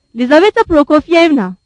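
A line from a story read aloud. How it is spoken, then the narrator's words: Prince shouting. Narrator (Turkish): diye bağırdı prens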